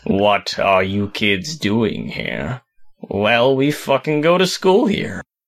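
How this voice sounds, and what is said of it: Snape impression. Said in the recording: “doing a great Snape impression”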